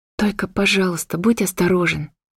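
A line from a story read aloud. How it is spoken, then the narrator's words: Quiet plea. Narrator (Russian): тихо попросила я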